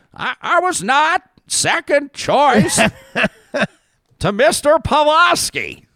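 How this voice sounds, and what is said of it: Imitates another person's voice. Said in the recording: “my Preston Manning impression.”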